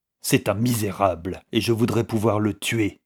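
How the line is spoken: Vindictive tone. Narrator (French): dit Rory d'un ton vindicatif

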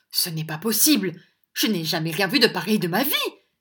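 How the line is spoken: Exclaiming. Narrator (French): s'écria Madame Nickleby

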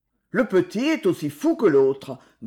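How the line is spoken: Grumbling foreman. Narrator (French): grommela le contremaître

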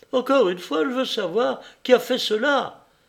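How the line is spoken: Quavering voice. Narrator (French): dit-elle d'une voix chevrotante

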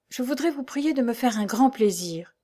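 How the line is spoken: Breathless murmur. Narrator (French): murmura Meg lorsqu'elle perdit haleine

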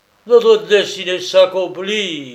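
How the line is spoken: Sudden howl. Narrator (French): hurla tout à coup Walter

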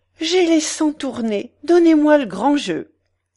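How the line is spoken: Exclaiming. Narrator (French): s'écria la Cibot

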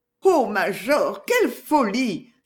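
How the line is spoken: Exclamation. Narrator (French): s'écria la veuve

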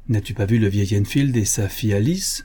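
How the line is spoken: Plain question. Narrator (French): me demanda-t-il

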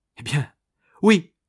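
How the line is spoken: Exclaimed. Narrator (French): s'écria alors Primevère

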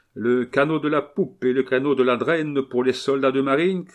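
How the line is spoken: Captain shouting. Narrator (French): cria le capitaine

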